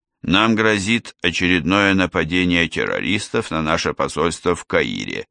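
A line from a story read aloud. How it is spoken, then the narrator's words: Calm report. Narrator (Russian): спокойно сообщил Лавкин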